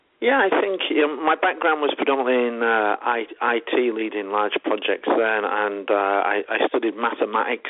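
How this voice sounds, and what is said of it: English accent. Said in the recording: “You forgot to mention I was English, so they might need to pay extra attention to the accent. ... your English”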